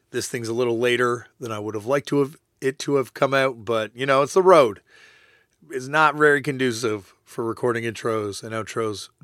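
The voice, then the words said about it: Shredded, hoarse voice. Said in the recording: “my voice is a little shredded”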